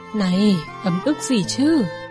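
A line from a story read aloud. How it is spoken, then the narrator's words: Sighing question. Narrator (Vietnamese): Vân Châu thở dài hỏi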